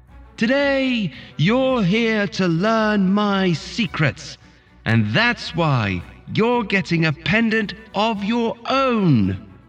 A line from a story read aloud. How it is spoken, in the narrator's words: shouted over them